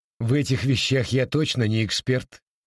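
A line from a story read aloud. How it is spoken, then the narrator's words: Laughing. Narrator (Russian): рассмеялся Волховский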